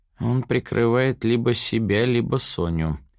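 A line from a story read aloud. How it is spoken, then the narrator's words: Sigh. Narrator (Russian): вздохнул он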